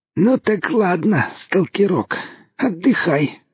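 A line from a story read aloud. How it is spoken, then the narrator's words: Old man's creaky voice. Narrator (Russian): проскрипел дед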